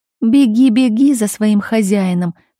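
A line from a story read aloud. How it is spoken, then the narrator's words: Nasal, nose pinched. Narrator (Russian): прогнусавила Лариса, зажимая нос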